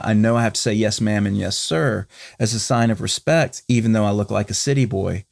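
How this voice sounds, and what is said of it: North Carolina Southern accent. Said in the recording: “if you notice my accent, I'm from North Carolina”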